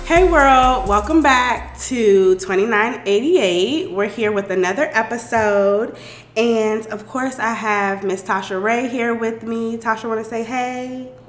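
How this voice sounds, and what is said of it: Sick, rough voice. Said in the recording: “my voice is like, sorry. We all kind of sick ... We're a little sick ... we sound terrible”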